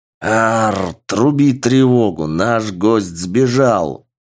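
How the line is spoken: Very loud gorilla roar. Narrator (Russian): взревела горилла, причем так громко

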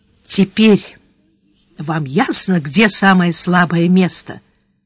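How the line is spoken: Very quiet. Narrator (Russian): произнес канцлер совсем тихо

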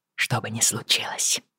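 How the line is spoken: Whispered. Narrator (Russian): прошептал он

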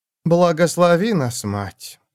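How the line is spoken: Sighing. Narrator (Russian): вздохнула она

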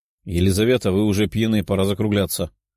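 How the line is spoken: Grumbling. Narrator (Russian): проворчала

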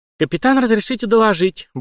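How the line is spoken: Brisk, unflustered report. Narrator (Russian): бодро принялась рапортовать, ничуть не смутившись его грозным видом Александра

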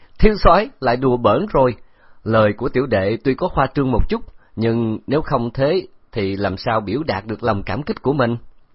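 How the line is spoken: Laughing. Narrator (Vietnamese): Hầu Hy Bạch bật cười nói

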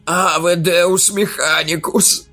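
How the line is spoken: Moaning. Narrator (Russian): застонал он

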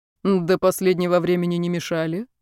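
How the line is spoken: Calm, indifferent. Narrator (Russian): спокойно пожал плечами Дрянин

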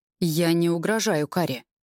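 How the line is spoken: Even voice, stormy undertone. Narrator (Russian): ровным голосом, в котором все равно ощущаются грозовые нотки, произносит Рейв

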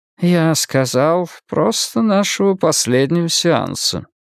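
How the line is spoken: Dispassionate therapist. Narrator (Russian): заметил терапевт бесстрастным тоном

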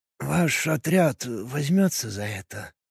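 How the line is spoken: Barely audible, hopeful. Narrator (Russian): Едва слышно, с надеждой в голосе спросил староста

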